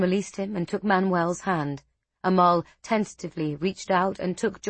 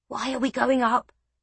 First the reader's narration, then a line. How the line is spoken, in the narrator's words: John whispered